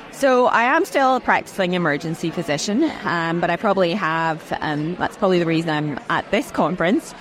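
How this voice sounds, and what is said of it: Slight Scottish-Australian accent. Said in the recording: “you probably can detect a bit of Scozzy ... the Scottish accent ... I originally hail from Scotland”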